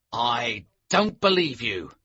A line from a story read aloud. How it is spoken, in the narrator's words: said angrily